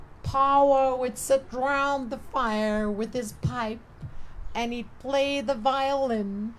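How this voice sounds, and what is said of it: Put-on twangy Texan American accent. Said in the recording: “It's my best American twangy Texan accent.”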